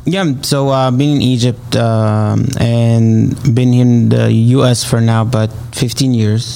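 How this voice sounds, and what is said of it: Arabic accent. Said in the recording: “so that's why the accent, right? ... We love the accent. You keep the accent ... We love our our Arabic uh, ... accents.”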